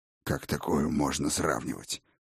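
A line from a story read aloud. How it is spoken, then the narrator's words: Hoarse indignation. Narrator (Russian): хрипло возмутился Крегер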